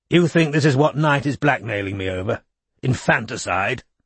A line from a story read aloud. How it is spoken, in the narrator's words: asked Chisel roughly